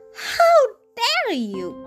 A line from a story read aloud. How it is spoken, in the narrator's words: cried the fairy in a bonnet